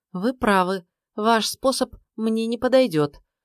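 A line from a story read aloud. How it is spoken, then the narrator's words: Sigh. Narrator (Russian): вздохнула Амалия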